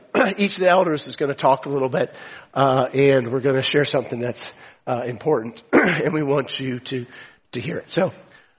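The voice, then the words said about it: Strained, failing voice. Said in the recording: “my voice is going”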